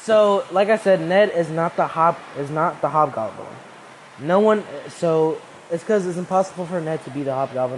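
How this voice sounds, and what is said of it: Speaking loudly. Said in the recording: “I'm speaking pretty loud ... My voice is overlapping the rain”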